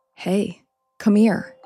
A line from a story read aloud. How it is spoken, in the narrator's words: He said quietly